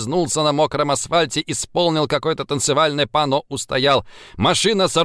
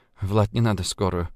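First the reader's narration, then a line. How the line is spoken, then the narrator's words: Mutter. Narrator (Russian): пробормотала Ульяна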